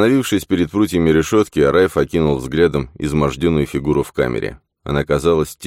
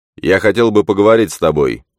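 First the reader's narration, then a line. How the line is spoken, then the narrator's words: Stern, not conspiratorial. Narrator (Russian): строго произнес он, прилагая все усилия, чтобы его голос не прозвучал заговорщически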